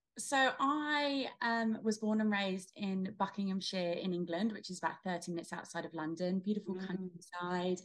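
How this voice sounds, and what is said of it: British accent. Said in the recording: “You have a beautiful British accent. You still got it”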